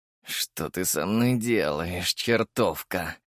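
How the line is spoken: Growl. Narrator (Russian): прорычал Черчесов

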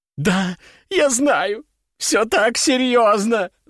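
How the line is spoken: Sobbing woman. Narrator (Russian): зарыдала женщина

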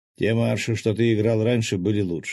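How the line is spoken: Grumbling. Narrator (Russian): проворчал я

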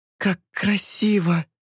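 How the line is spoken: Exclamation. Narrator (Russian): воскликнула она

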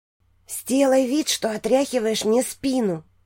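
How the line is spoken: Whisper. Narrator (Russian): шепнула Хеидрун

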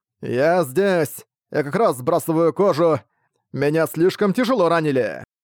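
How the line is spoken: Shout. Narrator (Russian): какой-то офицер прокричал

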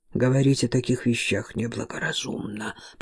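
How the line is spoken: Mutter. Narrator (Russian): пробормотал

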